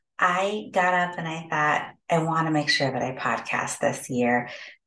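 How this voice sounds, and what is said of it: Voice lower than usual. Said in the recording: “my voice sounds a little bit lower than what it normally does”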